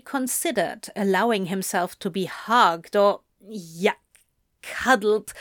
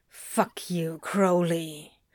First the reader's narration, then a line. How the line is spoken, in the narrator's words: he grumbled